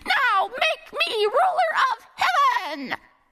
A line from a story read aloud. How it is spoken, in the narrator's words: Monkey ... screaming